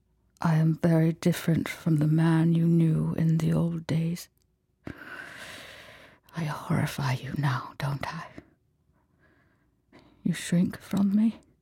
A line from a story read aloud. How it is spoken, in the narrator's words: She tried to keep her voice steady